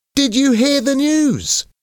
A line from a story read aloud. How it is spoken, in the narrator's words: shouted Alan